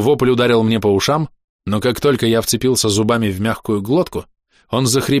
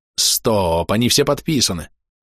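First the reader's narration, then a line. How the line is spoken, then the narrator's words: Growling. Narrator (Russian): Я зарычал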